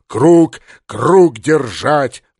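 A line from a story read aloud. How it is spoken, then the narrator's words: Roaring. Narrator (Russian): взревел полубой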